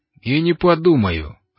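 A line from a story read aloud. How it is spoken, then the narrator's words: Sharp. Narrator (Russian): резко заявил Лафайет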